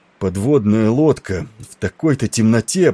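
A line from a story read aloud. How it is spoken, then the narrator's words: Groan. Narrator (Russian): простонал Тернер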